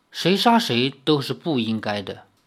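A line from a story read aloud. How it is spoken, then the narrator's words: Sad, soft. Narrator (Chinese): 赵灵儿悲哀地摇了摇头，轻声说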